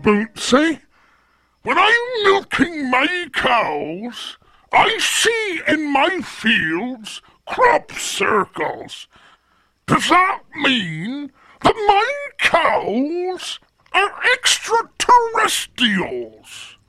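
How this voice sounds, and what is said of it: West Country English accent. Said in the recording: “that's the accent of where I came from, Hampshire in Southampton, the West Country”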